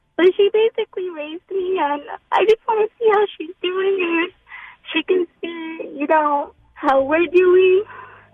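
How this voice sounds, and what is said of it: Emotional, tearful voice. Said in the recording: “I'm like a little emotional.”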